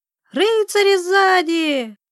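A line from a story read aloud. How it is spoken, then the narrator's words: Children yelling. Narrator (Russian): заорали детишки слуг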